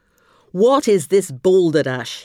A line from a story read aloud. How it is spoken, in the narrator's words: roared